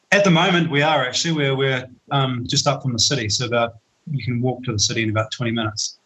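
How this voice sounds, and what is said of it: Slight South African accent. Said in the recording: “a bit of a hint of a South African accent”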